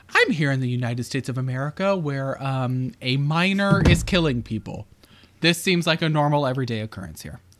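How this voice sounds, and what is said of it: Mock newscaster voice. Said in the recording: “newscaster voice”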